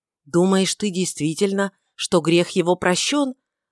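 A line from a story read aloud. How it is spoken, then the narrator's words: Swift exclamation. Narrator (Russian): воскликнул Варавва стремительно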